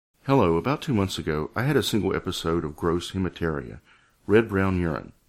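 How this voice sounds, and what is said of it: Theatrical acting voice reading aloud. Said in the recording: “guess in my best acting voice”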